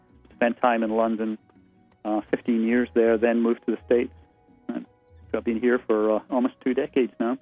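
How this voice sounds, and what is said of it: Lovely Scottish accent. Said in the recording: “you have a lovely accent because you're from Scotland”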